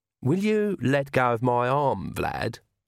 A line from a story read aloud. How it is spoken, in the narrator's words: said Agnes sweetly